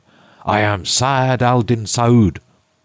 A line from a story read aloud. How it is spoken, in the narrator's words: The hideous blackamoor cried out